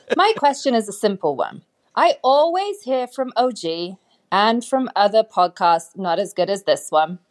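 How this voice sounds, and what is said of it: British female accent. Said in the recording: “You can hear from my accent that I'm not originally from Las Vegas ... of a British female”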